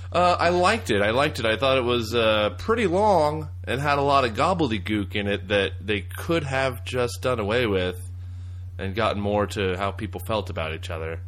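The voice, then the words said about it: Texan accent. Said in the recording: “is a Texan. In case you couldn't pick up on that.”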